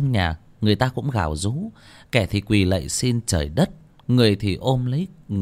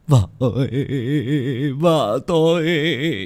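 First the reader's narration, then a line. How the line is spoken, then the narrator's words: Man wailing. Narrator (Vietnamese): một người đàn ông kêu gào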